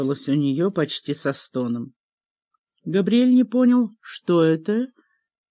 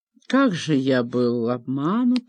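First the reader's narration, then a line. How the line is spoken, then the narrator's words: Pointedly quiet, calm voice. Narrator (Russian): заговорил подчеркнуто тихим и спокойным голосом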